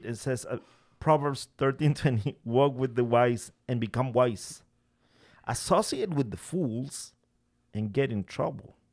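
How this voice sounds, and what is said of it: Speaks English with an accent. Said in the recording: “my accent is a burden for some people in this podcast”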